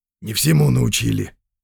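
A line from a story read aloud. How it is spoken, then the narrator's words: Muttered. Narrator (Russian): буркнул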